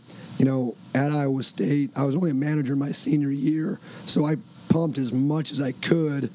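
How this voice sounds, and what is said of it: Hoarse, strained voice. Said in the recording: “I'm lost my voice.”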